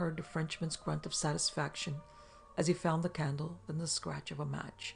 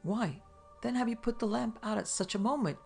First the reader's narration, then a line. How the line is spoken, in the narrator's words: cried Terry